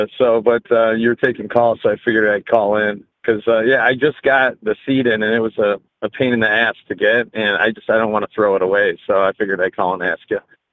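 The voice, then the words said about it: Strained voice, sounds unlike usual. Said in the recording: “you must have had a hard ass day at work because your your accent sounds totally different. I just I just had throat surgery... I just got my voice back, kind of.”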